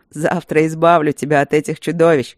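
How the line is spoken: Laughing. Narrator (Russian): рассмеялся Люк

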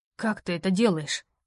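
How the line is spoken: Hoarse, agitated question. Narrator (Russian): охрипшим от волнения голосом спросил Роу

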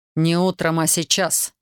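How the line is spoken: Sharp, curt. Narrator (Russian): резко бросил он

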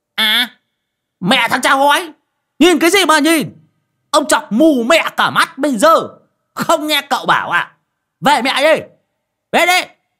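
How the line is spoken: Hissing angry screech. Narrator (Vietnamese): Lão Đồng rít lên

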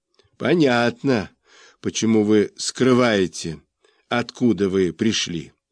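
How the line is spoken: Plain. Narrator (Russian): сказал тот

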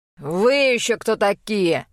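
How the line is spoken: Man's roar. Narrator (Russian): взревел мужчина

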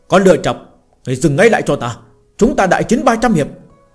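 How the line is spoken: Loud shout. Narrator (Vietnamese): Lâm Phàm hét lớn

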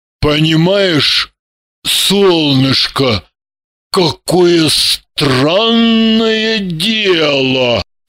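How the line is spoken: Slow, deliberate, improvising. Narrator (Russian): Медленно, с расстановкой, придумывая на ходу, начал он

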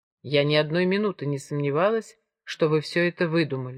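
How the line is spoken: Calm reply. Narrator (Russian): спокойно ответила Джемма

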